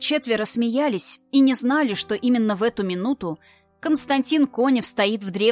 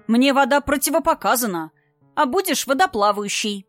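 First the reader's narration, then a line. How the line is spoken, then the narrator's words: Declared. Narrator (Russian): заявила Александрия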